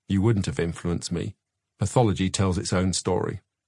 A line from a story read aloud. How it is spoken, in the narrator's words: said stiffly